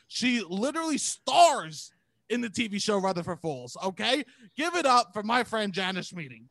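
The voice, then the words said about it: Staten Island accent. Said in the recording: “your Staten Island accent ... The hottest accent in all of the accents. ... This voice works”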